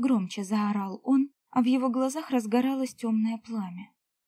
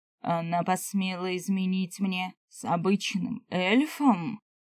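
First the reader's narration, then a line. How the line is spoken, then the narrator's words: Growled. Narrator (Russian): Прорычал он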